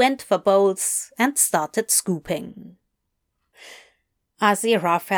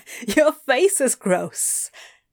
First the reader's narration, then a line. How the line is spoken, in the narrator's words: Adam laughed